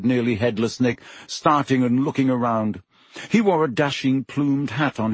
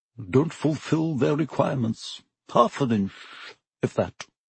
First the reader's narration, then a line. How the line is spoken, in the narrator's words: Nearly headless Nick, the ghost of Gryffindor Tower, morosely, muttering under his breath